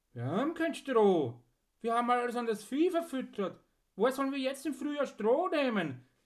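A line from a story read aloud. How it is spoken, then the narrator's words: Farmer calling up boldly. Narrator (German): rief ein Bauer mutig zum Erker hinauf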